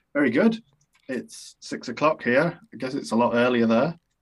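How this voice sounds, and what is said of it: British accent. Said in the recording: “Joining us from the United Kingdom ... I love your accent. It's beautiful.”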